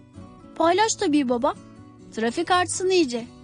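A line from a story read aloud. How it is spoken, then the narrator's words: Plain. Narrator (Turkish): dedi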